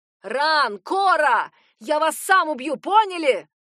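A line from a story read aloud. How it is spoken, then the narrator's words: Menacing shout. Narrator (Russian): Орал он так грозно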